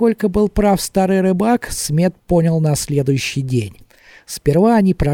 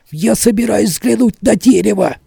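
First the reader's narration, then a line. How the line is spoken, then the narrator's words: Strained. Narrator (Russian): выдавил он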